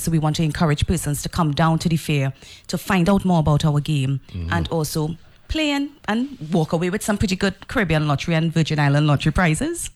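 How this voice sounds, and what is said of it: Trinidadian accent. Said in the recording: “I want to hear the Trini accent ... I can't get away from this Trinidad accent at all ... Trini to the bone”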